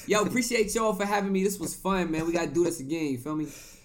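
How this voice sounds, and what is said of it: Put-on New York accent. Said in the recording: “Why did you change it to a New York accent?”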